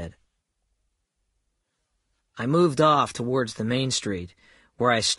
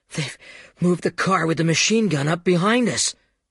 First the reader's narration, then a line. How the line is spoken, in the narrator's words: gasped